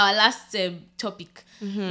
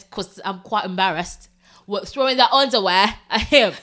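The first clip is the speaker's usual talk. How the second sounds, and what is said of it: Put-on British accent. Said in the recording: “I'm gonna speak in my British accent”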